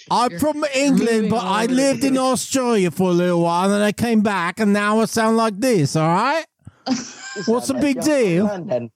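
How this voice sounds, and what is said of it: English accent with Australian tinge. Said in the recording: “the Australian accent is slipping in there”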